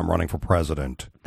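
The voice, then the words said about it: Imitates another person's voice. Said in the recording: “my best impression is of Jim Florentine”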